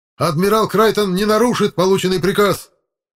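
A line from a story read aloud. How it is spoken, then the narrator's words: Shout breaking into shriek. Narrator (Russian): Срываясь на визг, выкрикнул майор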